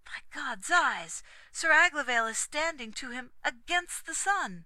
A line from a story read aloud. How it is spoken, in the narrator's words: Durnor cried